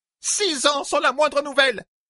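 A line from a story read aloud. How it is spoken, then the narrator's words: Shouted. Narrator (French): cria-t-elle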